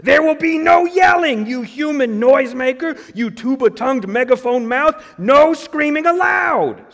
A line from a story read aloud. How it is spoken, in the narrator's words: Smooth screamed